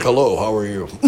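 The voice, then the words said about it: Smooth deep radio announcer voice. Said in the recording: “he had a radio voice ... It was like talking to someone that wasn't real, man. His voice was fucking perfect”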